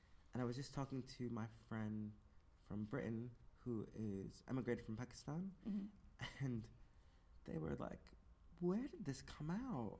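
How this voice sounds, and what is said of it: Mixed international accent. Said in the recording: “you can hear my accent. My accent is the culmination of having been raised around the world from people around the world.”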